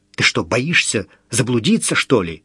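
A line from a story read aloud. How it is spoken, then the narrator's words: Angry snap. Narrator (Russian): бросил зло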